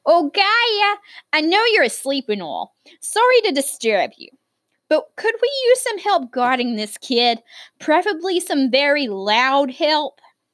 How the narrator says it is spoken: called out to the Earth Mother

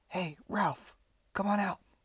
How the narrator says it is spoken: whispered Keith

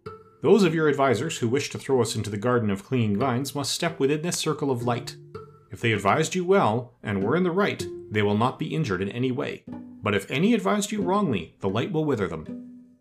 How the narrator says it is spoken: exclaimed the wizard

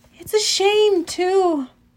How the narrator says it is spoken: I sighed

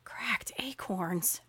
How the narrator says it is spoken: I whispered under my breath in shock

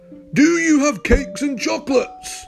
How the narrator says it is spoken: the highway robber cried

